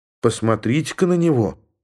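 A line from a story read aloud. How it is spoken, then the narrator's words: Calm remark. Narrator (Russian): спокойно заметила женщина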